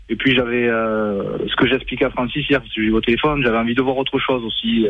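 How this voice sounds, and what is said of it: Slight southern French accent. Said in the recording (French): “mon petit accent euh, mi-ariégeois, mi-toulousain”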